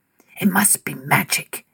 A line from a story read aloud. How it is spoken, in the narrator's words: they whispered